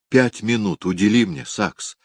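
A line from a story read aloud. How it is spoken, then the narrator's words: Whispered. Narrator (Russian): прошептала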